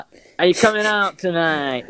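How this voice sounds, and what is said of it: Imitates lisping southwest English accent. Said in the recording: “the boy's got lisp and he talks in this like really bad like southwest accent ... such an iconic voice”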